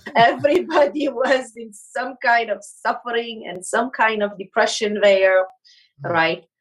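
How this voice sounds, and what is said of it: Foreign-accented English. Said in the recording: “could you tell us a little bit about your accent”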